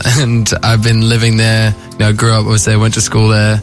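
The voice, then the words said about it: Australian English accent. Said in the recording (French): “I feel most Australian. Like, it's my accent”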